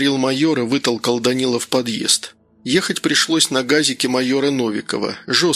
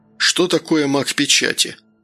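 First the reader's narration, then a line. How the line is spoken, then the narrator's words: Listless, glum question. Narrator (Russian): вяло спросил Данил, уныло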